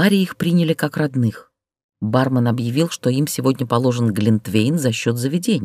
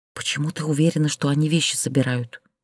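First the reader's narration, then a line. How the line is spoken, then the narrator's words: Whispered. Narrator (Russian): прошептала Люся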